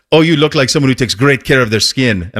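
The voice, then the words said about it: Imperfect put-on foreign accent. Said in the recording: “I understand that that's not exactly a Swedish accent”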